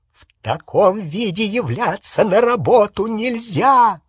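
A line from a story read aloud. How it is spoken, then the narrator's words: Shouting. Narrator (Russian): закричала Гермиона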